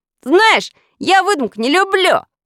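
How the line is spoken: Shouting. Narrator (Russian): крикнул

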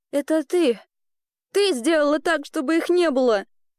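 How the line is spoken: Strained, barely audible. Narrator (Russian): еле выдавила из себя Элли

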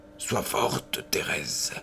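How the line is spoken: Murmuring. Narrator (French): murmura-t-il

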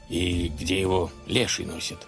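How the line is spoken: Nervous mutter. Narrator (Russian): нервно бормотал князь

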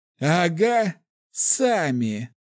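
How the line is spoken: Laughing loudly. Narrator (Russian): хохотал тот

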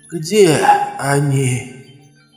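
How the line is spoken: Hissing whisper. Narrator (Russian): спросила она свистящим шепотом

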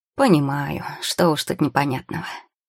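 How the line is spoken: Sigh. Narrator (Russian): вздохнул пекарь

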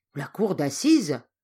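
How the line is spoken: Frightened exclamation. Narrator (French): s'exclame Jeff, non sans effroi

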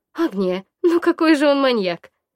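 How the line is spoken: Laughing. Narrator (Russian): рассмеялась Варя

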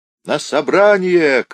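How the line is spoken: Distant shout. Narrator (Russian): кричал в другом конце секретарь

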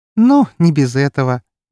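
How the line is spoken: Drunken giggle. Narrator (Russian): пьяно хихикнула

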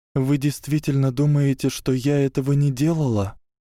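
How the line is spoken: Trembling voice question. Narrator (Russian): дрожащим голосом спросила Гермиона

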